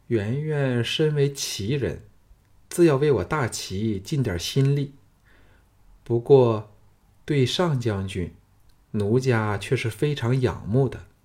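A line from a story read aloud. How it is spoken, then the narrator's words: Flat, indifferent. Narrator (Chinese): 蓝公园淡淡的说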